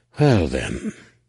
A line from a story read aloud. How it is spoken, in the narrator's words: Han breathed